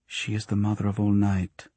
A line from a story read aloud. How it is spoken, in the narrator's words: murmured